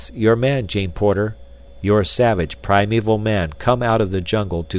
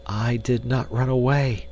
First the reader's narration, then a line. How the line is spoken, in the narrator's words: she whispered